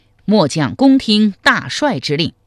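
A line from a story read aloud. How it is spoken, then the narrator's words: Loud reply. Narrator (Chinese): 韩通高声应曰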